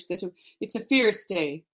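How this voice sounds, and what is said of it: Attempted Irish accent. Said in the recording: “my, you know, attempted Irish accent.”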